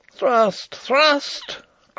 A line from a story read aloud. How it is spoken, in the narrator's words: cried Rupert again